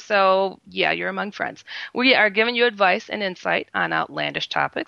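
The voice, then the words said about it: Hoarse voice. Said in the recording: “with a hoarse voice, but it's okay”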